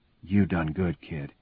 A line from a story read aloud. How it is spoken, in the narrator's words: he whispers